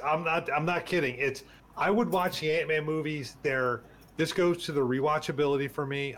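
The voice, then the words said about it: Choked-up, emotional voice. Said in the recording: “It's kind of getting choked up right now talking about it.”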